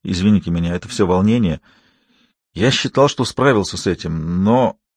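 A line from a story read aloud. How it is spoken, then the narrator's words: Quiet mutter. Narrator (Russian): он тихонько пробормотал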